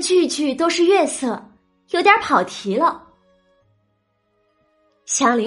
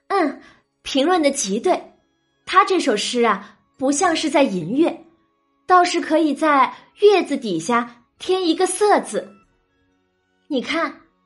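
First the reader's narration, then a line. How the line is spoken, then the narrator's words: Smiling. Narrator (Chinese): 宝钗听了，笑着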